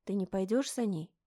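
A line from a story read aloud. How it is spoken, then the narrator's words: Quiet question. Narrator (Russian): спросила я Алена тихо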